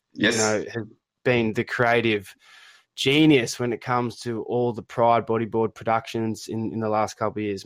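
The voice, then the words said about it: Australian accent. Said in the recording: “my poor Australian accent”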